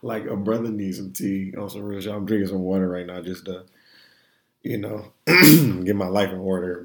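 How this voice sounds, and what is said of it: Hoarse voice. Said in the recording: “If you can hear the hoarseness, the hoarse in my voice right now ... I sound real crazy, right?”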